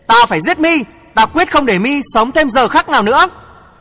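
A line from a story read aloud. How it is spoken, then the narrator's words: Furious shout. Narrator (Vietnamese): Ngô Tiểu Mi tức giận dậm chân hét lớn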